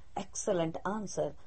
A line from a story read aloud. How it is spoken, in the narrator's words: murmured the assembled kings